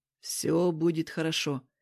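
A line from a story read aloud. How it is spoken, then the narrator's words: Soft. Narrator (Russian): мягко сказал я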